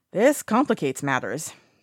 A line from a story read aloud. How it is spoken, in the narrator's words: he sighs